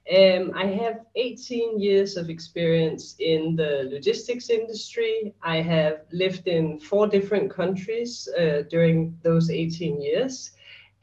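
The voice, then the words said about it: Danish accent. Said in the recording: “I am Danish. Apologize for the accent”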